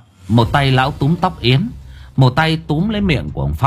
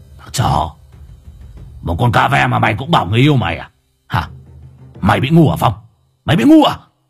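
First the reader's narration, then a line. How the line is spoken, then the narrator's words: Harsh, gritted voice. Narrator (Vietnamese): Lão Hùng gằn giọng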